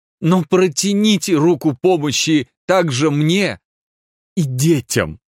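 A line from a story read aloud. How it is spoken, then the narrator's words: Added with a sob. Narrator (Russian): добавил он и всхлипнул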